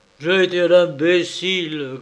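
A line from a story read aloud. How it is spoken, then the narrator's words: Grumbling. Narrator (French): grommela Malcolm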